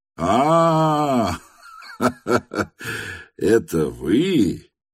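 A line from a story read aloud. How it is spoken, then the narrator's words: Loud guffawing. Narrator (Russian): громко захохотал Ставрогин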